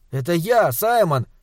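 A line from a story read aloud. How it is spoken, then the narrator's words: Boy shouting. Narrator (Russian): крикнул мальчик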